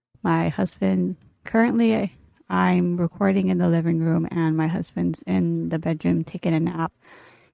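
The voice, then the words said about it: Speaking very quietly and softly. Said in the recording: “like I'm talking very quietly, very softly ... I'm trying not to talk very loudly”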